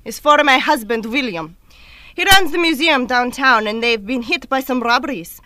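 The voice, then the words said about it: Exotic Russian accent. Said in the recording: “her exotic accent ... I placed her from the Soviet Union, probably near Moscow”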